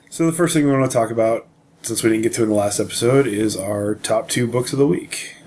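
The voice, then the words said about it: Weak, fading sick voice. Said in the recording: “I'm a little under the weather. My voice is fading”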